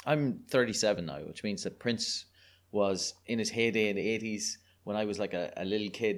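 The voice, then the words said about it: Irish accent. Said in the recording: “your listeners can probably tell from my accent, I'm a delightful Irish person”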